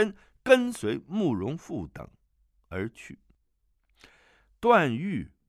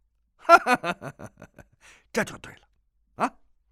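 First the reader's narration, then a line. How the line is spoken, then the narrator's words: Hearty laughter. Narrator (Chinese): 包不同哈哈大笑，说道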